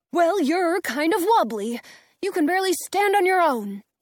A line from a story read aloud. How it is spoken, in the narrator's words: Tin Man snaps